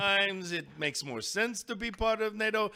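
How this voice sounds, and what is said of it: Jack Frost character accent. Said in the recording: “with that accent, I'm curious about Jack Frost's stance on NATO.”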